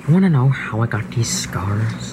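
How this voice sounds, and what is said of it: Impression of Heath Ledger's Joker. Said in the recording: “my impression of Heath Ledger's Joker”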